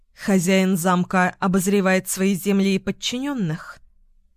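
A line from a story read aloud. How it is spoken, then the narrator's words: Dry question. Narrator (Russian): сухо спросила Тамсин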